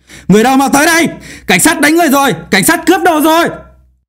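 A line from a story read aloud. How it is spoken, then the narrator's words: Shrill squealing young man's shout. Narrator (Vietnamese): người thanh niên hét lên như bị heo chọc tiết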